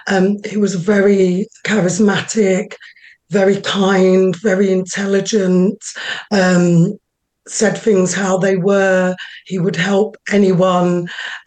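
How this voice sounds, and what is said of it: Voice faltering and giving out. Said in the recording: “Bear with me, my voice is going a little bit.”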